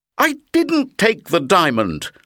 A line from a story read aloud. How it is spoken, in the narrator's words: Lucas cried